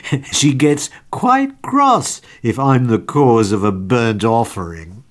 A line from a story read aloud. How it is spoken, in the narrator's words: With a little laugh he added